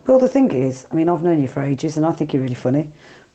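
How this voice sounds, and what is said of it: Black Country accent. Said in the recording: “from the Black Country, as you will recognise from her accent”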